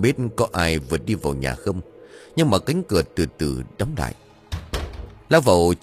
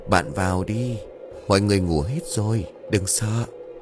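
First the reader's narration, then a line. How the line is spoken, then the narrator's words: Whispering. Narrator (Vietnamese): thì thào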